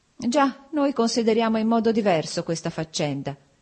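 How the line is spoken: Cold. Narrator (Italian): disse freddamente Alexei Alexandrovich

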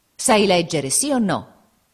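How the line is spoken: Father exclaiming. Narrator (Italian): esclamò il padre

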